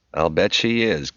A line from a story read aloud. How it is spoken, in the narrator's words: Kim said with a dismissive chuckle